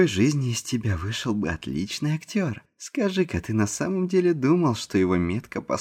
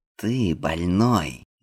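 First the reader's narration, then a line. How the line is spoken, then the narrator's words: Furious hiss. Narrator (Russian): Яростно прошипел он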